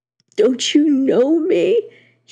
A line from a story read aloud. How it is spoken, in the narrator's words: he gasped